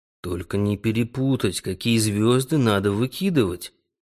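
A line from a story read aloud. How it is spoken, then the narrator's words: Muttering. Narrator (Russian): пробормотал Бельба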